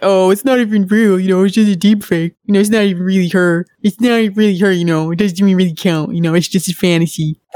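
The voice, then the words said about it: Mocking impression of a creepy guy. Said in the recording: “I can already hear the scrote justification in my mind... That's how creepers actually talk... My accents are accurate”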